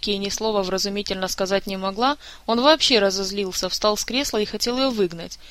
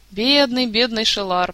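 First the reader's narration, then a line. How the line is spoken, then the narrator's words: Moaning. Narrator (Russian): простонал Карлсон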